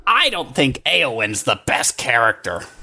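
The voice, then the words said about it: Put-on nerdy neckbeard character voice. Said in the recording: “did you just grow a neck beard as you said that? ... That's why I did the voice”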